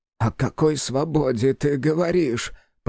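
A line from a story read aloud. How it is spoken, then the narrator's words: Mumbling. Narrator (Russian): промямлил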